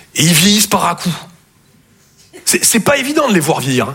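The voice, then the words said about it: Slight Toulouse southern French accent. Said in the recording (French): “Je viens de Toulouse à la base. Ouais, ça s'entend un peu. ... mon accent”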